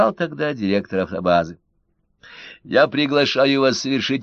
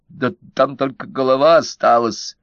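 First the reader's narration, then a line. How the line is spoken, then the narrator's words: Confused babbling. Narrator (Russian): в растерянности пролепетал турист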